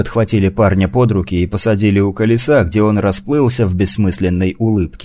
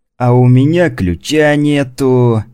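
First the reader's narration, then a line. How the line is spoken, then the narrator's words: Cheerful guard. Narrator (Russian): радостно сообщил охранник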